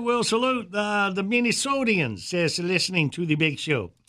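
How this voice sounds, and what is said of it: Put-on Michigan accent. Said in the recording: “That was my Michigan accent”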